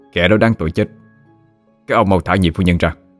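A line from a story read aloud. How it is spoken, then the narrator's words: Harsh, gritted voice. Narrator (Vietnamese): Lê Đạt gằn giọng mà nói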